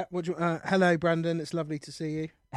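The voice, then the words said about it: Put-on English accent, fairly good. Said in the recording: “Okay, my English accent? ... Not bad.”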